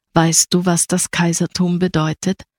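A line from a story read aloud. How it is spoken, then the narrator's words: Plain. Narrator (German): fragte sie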